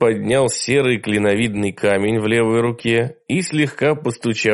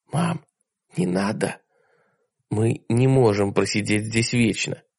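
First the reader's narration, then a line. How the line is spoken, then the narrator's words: Quiet female. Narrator (Russian): тихо ответила она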